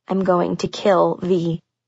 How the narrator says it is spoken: I muttered

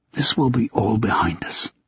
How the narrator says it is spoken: he whispered

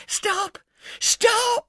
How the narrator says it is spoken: said the old woman in a loud whisper

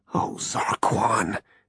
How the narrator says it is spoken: he muttered to himself

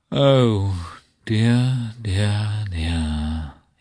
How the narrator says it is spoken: he groaned

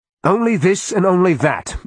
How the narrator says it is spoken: Ilona barked

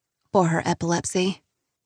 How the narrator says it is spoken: whispers

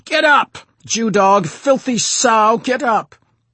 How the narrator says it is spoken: he screamed

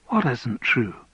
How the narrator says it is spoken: asked Andrew gently

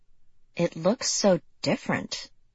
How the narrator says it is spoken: Lexi murmured

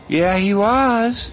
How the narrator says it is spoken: Angela said, kind of slurring out the words

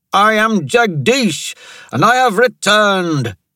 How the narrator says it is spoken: he shouted

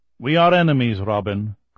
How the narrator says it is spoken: Kolya said again

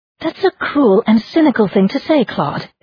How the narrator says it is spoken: exclaimed the nun

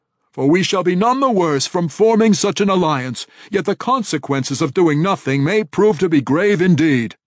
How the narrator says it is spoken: he declared loudly

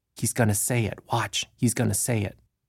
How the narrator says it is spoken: Some of the workers whispered

